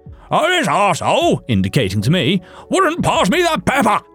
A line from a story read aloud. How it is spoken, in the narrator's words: he roared